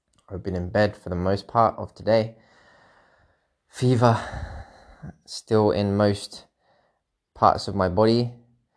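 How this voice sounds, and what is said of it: Sick, unwell-sounding voice. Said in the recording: “As you can probably tell in my voice, I'm still feeling like a piece of shit.”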